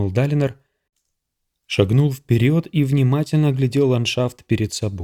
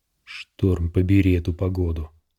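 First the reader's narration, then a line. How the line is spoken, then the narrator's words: Muttering. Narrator (Russian): пробормотал человек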